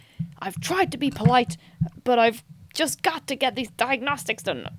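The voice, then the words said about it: Put-on accent for a character. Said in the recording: “I don't know what accent I'm doing for Geordi”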